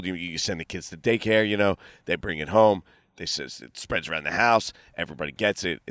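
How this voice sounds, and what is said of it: Congested, stuffed-up nasal voice. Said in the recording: “I'm struggling with this cold ... I'm stuffed beyond belief. I sound like an alien. Sound like I have nose plugs on.”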